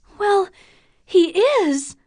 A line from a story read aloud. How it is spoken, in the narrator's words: Catherine cried before she knew it